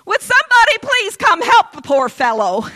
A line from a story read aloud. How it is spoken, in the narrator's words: him in the station wagon yelling out